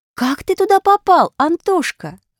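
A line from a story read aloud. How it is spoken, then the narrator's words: Exclaimed. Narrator (Russian): воскликнула Аля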